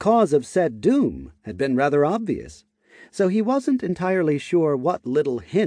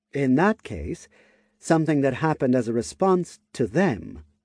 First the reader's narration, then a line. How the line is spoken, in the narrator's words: Udana replied in a thoughtful tone